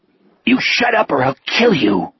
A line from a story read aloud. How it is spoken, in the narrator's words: Sonny hissed